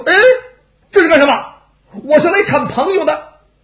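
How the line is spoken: Shouting. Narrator (Chinese): 王霸一叫

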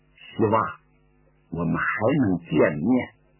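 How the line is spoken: Low tender voice. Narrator (Chinese): 张学良压低了声音，带着柔情说

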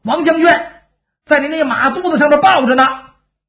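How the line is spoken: Soldiers shouting. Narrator (Chinese): 后边的军兵喊上

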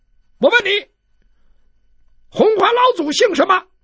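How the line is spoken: Loud question. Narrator (Chinese): 他高声问

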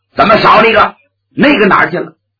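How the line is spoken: Stern, shaken demand. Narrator (Chinese): 李靖心头一颤，厉声喝问

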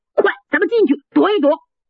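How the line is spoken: Shout. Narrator (Chinese): 这一喊

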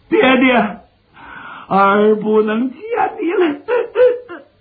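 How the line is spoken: Crying. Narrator (Chinese): 刘琦见势不好，哭了三声

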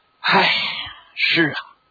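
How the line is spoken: Sighing. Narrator (Chinese): 关向英一个劲儿的叹息

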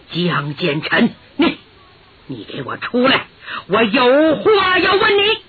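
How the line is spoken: Low voice, suppressed anger. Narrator (Chinese): 强压怒火，压低嗓音

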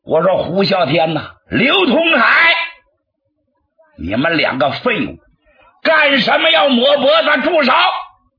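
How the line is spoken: Monk roaring. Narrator (Chinese): 和尚 大吼了一声

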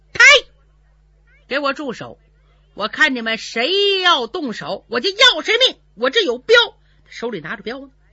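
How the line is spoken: Shout. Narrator (Chinese): 徐芳蹲在房梁上喊了一声

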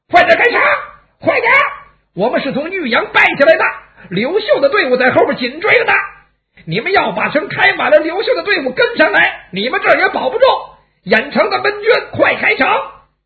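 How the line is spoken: Soldiers shouting loudly. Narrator (Chinese): 莽军的先头部队来到城下，向城上大声喊

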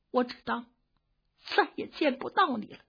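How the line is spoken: Choked with mixed emotion. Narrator (Chinese): 他是又惊又喜，又悲又痛 哽咽了半日半天才说出话来

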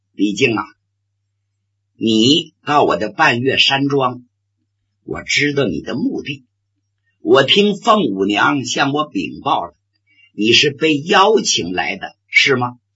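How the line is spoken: Affected elegance, faint smile. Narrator (Chinese): 他还装那个高雅的劲儿，淡淡一笑

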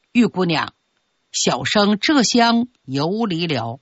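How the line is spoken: Gentle smiling greeting. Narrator (Chinese): 微微含笑

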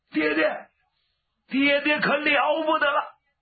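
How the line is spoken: Shouting. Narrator (Chinese): 就喊

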